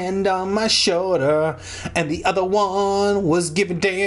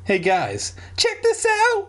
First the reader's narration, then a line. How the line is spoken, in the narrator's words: Dad exclaimed